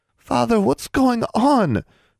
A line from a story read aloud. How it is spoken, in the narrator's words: pleaded